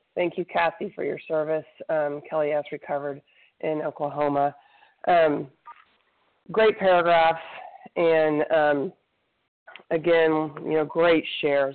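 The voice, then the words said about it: Congested voice from a cold. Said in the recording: “Sorry, I have a little bit of a cold.”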